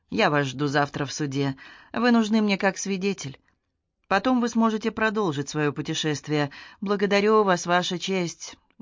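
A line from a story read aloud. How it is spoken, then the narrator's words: Sad. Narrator (Russian): грустно покачивая головой, сказал Куан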